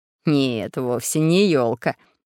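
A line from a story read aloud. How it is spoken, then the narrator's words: Laughing. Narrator (Russian): засмеялся профессор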